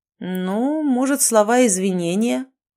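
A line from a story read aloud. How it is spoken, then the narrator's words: Drawling. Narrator (Russian): протянул он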